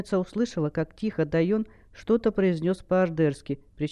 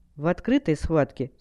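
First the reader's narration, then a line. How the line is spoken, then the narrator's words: Calm reply. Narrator (Russian): спокойно ответила Хэл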